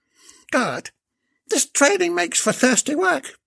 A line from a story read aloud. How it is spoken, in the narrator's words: exclaimed whilst hiccuping